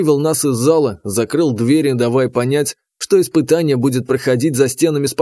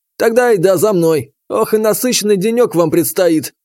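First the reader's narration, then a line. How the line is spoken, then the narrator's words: Coach snorting. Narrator (Russian): хмыкнул тренер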